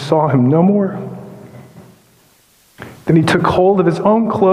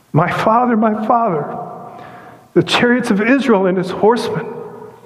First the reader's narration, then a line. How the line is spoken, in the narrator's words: Elisha he cried